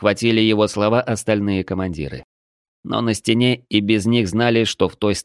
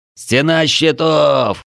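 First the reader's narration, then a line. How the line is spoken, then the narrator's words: Many shouting commanders. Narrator (Russian): кричали сотники и десятники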